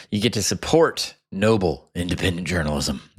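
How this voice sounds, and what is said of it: Mock NPR announcer voice. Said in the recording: “That was my NPR voice.”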